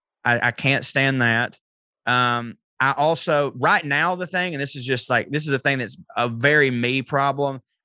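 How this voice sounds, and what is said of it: Speaks with a noticeable accent. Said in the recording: “people assume because of my accent, I'm stupid”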